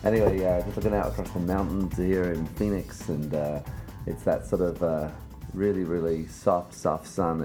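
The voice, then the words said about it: Sleepy early-morning bedroom voice. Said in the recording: “it's 6 o'clock in the morning here. That's why I've got that kind of little bedroom voice on”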